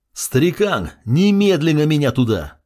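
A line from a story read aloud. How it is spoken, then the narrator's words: Yelled. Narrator (Russian): заорал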